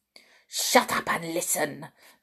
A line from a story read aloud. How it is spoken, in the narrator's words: snapped the Grand High Witch